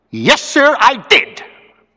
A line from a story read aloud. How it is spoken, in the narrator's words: cried